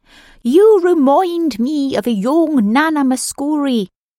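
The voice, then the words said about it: Bad Irish accent. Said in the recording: “adopts a bad Irish accent.”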